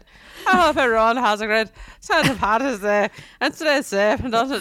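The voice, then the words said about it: Put-on Irish accent. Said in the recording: “This is my Irish accent.”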